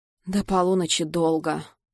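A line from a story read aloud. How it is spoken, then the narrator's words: Gloomy sigh. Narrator (Russian): мрачно вздыхаю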